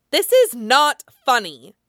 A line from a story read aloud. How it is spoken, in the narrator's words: Danny snaps, sounding frightened enough